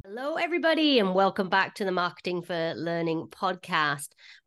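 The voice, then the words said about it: American accent. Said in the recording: “It's my American accent.”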